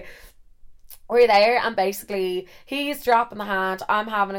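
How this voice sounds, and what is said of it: Usual voice. Nothing is said of it.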